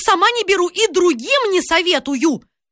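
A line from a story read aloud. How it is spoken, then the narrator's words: Ominous shouting. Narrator (Russian): Она кричала так зловеще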